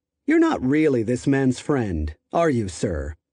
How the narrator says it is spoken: Shipp sighed

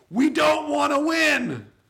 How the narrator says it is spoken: We yell across the noisy roar of the engines

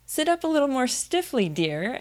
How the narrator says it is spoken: Alice cried with a merry laugh

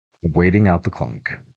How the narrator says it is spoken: Grammy said firmly, wiping another tear from her cheek

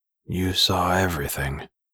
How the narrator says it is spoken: Jace remarked in an empty voice

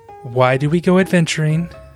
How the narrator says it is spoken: Pippa sighed and recited in the manner of one who has heard it 1,000 times before

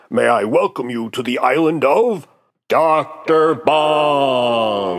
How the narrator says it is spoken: Bong addresses them by shouting

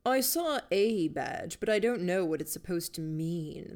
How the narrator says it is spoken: the headmaster said

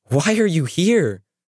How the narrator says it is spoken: she snapped

